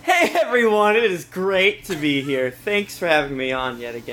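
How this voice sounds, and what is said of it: Put-on podcast host voice. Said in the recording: “podcast voice makes me afraid. I feel like he's a secret murderer when he does it.”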